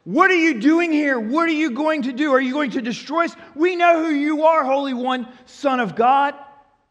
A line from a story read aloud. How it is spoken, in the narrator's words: a man demon-possessed … yells at him